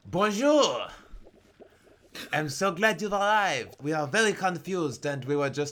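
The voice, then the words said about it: Put-on exaggerated French accent. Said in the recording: “I'm French listeners of this podcast, by the way, I'm so sorry. I thought this would be the funniest, least racist accent I could do.”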